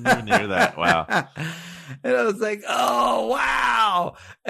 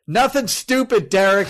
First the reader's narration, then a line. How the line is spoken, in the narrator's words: he yelled